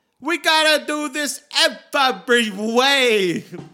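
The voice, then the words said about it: Heavy Brooklyn accent impression. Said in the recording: “accent? Her heavy, like, Brooklyn... She's intense.”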